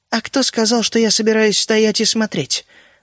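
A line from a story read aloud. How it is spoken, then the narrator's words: Quiet and distinct. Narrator (Russian): Проговорила она тихо и отчетливо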